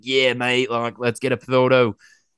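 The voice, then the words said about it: Put-on Australian accent. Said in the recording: “my Australian accent impression.”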